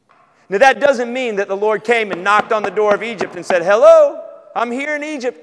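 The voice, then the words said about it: Southern American accent. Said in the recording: “you got a southern accent ... I don't have your accent”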